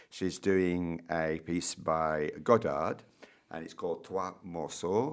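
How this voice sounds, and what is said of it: Put-on French pronunciation. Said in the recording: “My good French accent there, I hope.”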